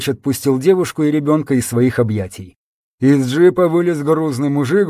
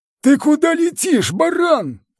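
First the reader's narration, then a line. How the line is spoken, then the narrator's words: Shout through window. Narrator (Russian): крикнул ему Палыч в приоткрытое окно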